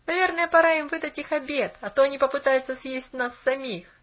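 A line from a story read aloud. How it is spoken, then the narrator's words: Boy laughing. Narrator (Russian): засмеялся мальчик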